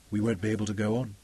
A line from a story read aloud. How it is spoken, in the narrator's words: he said quietly